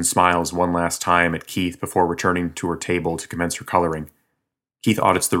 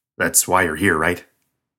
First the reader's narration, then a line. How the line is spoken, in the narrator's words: Keith chuckles nervously